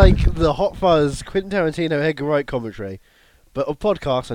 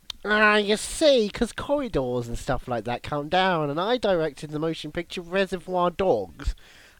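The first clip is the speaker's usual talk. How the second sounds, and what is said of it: Imitates another person's voice. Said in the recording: “let's both do our best Quentin Tarantino impression”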